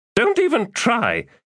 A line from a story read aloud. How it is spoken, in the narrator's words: Precious Thimble snapped